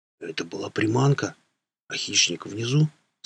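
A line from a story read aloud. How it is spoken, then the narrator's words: Quiet question. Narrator (Russian): спросил тихим голосом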